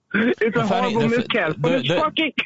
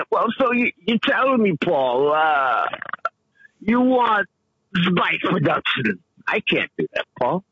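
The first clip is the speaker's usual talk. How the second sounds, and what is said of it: Christopher Walken impression, Bronx sound. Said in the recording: “That whole random Bronx sound... It's Christopher Walken.”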